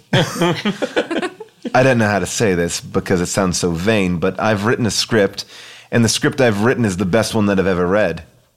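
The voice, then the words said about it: Breathy put-on British accent. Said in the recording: “British accent ... Breathy.”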